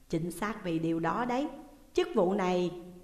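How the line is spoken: Gentle explanation. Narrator (Vietnamese): giám mục nhẹ nhàng giải thích

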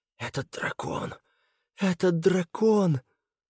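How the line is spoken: Admiring whisper. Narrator (Russian): Вэй Хуай перешел на восхищенный шепот

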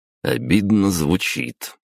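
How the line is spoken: Short chuckle. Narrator (Russian): хохотнул Певк

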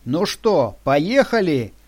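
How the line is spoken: Shouted. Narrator (Russian): крикнул он нам

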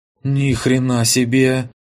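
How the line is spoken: Breathed out over radio. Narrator (Russian): выдохнула в канале Алена

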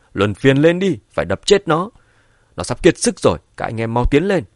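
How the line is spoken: Angry shout. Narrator (Vietnamese): Gã vệ sĩ cầm đầu giận dữ hét

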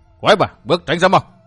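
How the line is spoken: Shout. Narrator (Vietnamese): Độc Cô Thanh Tùng quát

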